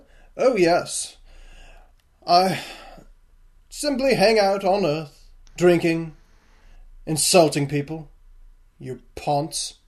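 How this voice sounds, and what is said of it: Deliberately bad British accent. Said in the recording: “doing his best terrible British accent”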